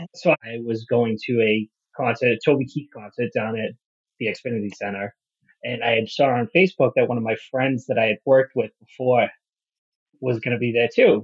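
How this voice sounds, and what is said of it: Heavy regional accent. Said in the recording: “I will be extra heavy on my accent because I do not know how to turn it off. And when I try to turn it off, it just gets worse anyways.”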